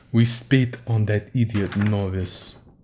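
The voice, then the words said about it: Imitated Russian accent. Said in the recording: “That's my best Russian impression.”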